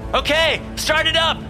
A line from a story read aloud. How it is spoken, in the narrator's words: I shouted